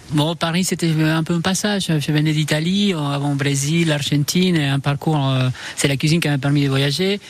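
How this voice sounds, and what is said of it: Argentine accent speaking French. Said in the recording (French): “on adore votre accent ... vos origines argentines”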